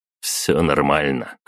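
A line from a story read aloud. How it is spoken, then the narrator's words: Snorted. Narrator (Russian): хмыкнул я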